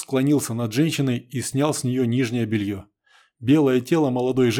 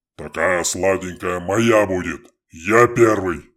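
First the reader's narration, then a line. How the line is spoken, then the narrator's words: Deep, menacing male voice. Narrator (Russian): Басом и грозно заявил хохол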